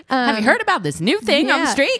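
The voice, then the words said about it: Old-timey voice. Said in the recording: “Old timey voice. ... Good accent. ... Nailed it.”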